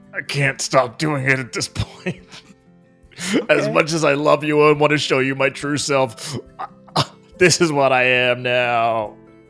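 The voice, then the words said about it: Exaggerated gruff American voice. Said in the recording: “my voice sounds so gruff ... sounding super gruff and American ... you don't need to sound super gruff around me”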